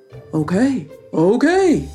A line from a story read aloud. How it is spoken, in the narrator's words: sighed Bayou